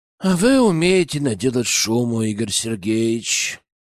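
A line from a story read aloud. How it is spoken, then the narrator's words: Bored drawl. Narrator (Russian): Скучающим тоном протянул он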